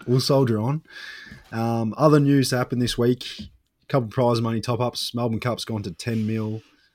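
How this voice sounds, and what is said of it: Nasal voice, sounds congested. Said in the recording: “You can probably tell by my voice that I'm fighting off a bit of a cold at the moment. I'm a little bit nasally”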